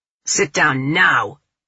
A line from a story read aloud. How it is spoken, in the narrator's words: barks